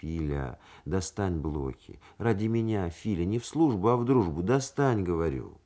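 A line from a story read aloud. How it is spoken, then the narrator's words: Gentle, persuasive request. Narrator (Russian): Качнов ласково и убедительно попросил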